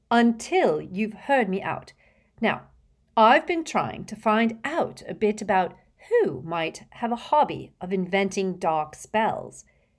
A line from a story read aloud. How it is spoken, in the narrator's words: said Hermione firmly